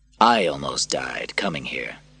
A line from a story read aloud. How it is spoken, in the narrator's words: said Maximus